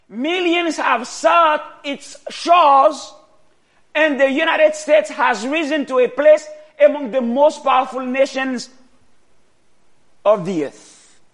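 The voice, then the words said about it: Foreign accent. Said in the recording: “I was not born here. And when you hear my accent, you say, this man does not come from here.”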